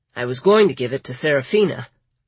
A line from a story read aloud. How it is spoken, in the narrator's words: Lawrence said